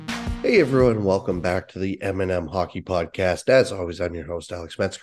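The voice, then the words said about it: Congested, slightly altered voice. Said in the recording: “if I sound a little different. I am battling a bit of a head cold here.”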